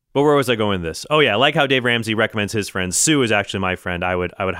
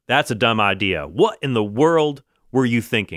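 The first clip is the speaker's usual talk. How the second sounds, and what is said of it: Stern angry-dad impression. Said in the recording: “Dave Ramsey is sort of like the angry dad I never had ... he's not afraid to mince words ... my impersonation of Dave Ramsey”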